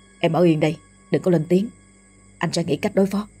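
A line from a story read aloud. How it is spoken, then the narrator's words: Urgent whisper. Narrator (Vietnamese): thì thầm căn dặn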